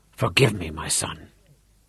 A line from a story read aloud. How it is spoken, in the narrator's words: whispered through his tears